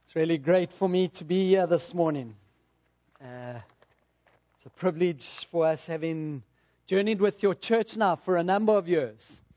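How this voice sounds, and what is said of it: English accent. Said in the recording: “Sorry about the accent... There's English and then there's American accent.”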